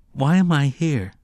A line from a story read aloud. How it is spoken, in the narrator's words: Jake asked